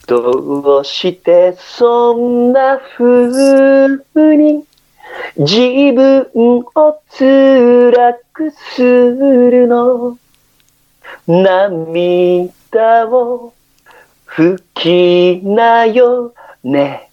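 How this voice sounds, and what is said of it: Imitates another person's singing voice. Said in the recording (Japanese): “かっちゃんのモノマネ”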